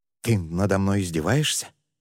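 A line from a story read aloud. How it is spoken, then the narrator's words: Strained, forced out. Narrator (Russian): смог выдавить он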